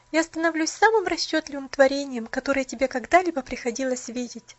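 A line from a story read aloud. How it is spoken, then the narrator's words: Bitter, sorrowful laughter. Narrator (Russian): горестно смеялась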